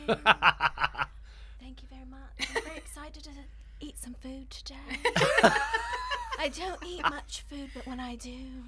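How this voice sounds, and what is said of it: Funny imitation of a British singer. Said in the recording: “You do really good Emma Bunting, actually... such funny accents”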